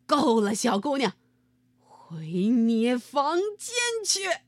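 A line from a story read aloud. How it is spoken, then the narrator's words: Loud. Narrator (Chinese): 大声对艾米说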